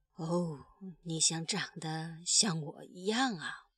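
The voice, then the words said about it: Quiet, soft-spoken line. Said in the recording (Chinese): “小声地说”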